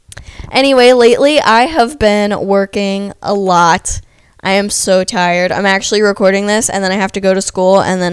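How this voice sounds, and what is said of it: Hoarse, congested voice. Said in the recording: “losing my voice and I'm stuffy”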